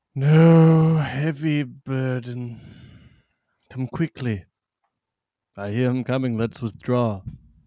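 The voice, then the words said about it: Shakespearean theatrical voice. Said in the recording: “does this Shakespeare voice”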